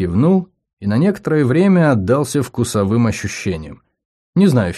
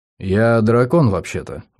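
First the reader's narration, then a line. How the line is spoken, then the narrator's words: Grumble. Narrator (Russian): буркнул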